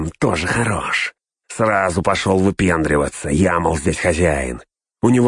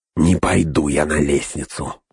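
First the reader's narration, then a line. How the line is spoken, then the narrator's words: Grumble. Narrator (Russian): буркнул Снага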